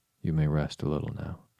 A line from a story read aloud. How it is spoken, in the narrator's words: said kindly